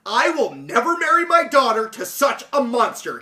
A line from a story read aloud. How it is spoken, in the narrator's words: he cried